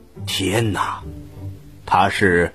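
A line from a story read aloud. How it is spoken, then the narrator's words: Hushed, low voice. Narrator (Chinese): 这个店主压低了声音对阿凡提说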